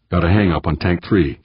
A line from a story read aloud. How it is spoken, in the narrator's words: she said calmly